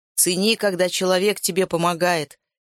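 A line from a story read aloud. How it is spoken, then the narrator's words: Shout. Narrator (Russian): крикнул кому-то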